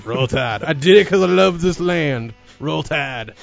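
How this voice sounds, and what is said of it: Exaggerated Alabama sports-host accent. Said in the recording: “I hate that dumb accent. It sounds like Roll Tad.”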